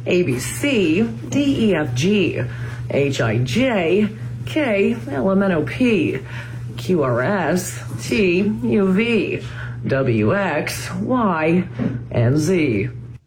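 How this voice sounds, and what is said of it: Newscaster cadence reciting the alphabet. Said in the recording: “Here's my impression of somebody who works in the news doing the alphabet ... The cadence sounds like a newscast”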